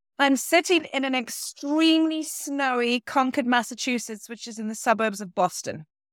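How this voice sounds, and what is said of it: British accent, northeast England. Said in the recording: “you can tell by the accent, I'm not from here. I'm British originally ... I am from the northeast of England”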